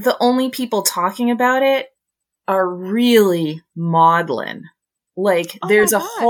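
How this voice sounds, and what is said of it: Usual voice. Nothing is said of it.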